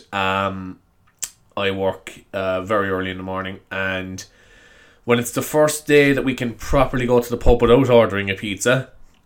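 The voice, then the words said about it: Congested, raw-throated voice. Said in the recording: “as you can tell by my voice, I'm not feeling the best ... I'm feeling a little bit of a snivel, and my throat is a bit, is just a bit raw.”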